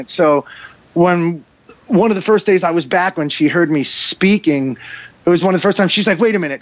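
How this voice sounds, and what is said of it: Heavy New York accent. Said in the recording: “you have such a New York accent ... he's a guy from New York and he's got a heavy New York accent”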